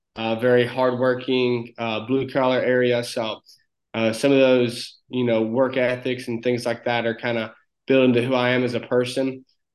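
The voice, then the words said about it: Very thick Southern country accent. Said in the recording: “you can probably hear my accent ... most people say I have a very thick country accent”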